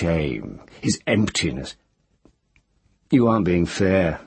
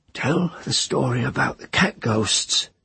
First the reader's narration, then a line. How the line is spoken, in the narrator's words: Teru said in her husky voice